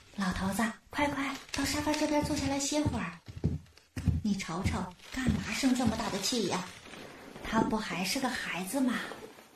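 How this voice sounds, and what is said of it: Soft, quiet consoling voice. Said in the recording (Chinese): “老伴在旁边小声劝慰着”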